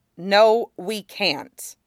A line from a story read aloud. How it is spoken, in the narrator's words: Sokka said flatly